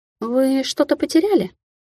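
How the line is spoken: Shocked mumble. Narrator (Russian): потрясенно пробормотала девушка

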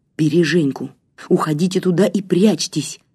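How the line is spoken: Mumbling while running. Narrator (Russian): пробормотал он на бегу

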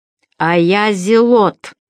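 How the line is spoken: Pompous, pouting reply. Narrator (Russian): важно выпятив губищу, ответила рябая Ахаря

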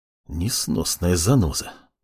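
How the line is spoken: Tired hiss, father. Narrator (Russian): устало прошипел отец

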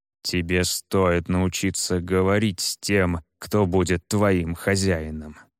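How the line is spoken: Through gritted teeth. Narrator (Russian): сквозь зубы процедил северянин

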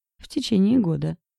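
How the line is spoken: Speaking over friend's laughter. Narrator (Russian): прорывался сквозь смех друга Лоренц

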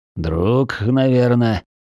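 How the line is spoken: Beast's growl. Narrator (Russian): прорычал зверь

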